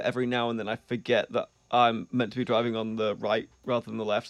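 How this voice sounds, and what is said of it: English accent. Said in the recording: “as you might tell from my accent, English”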